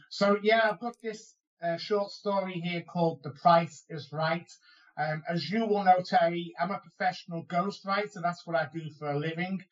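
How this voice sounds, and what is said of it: Liverpool accent. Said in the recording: “recognize a Liverpool accent when they hear one will know that that's where I'm from”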